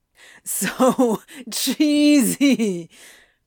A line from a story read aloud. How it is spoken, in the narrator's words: Crowley wheezed dramatically